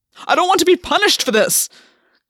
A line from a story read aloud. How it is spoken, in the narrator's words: Gwyn shouted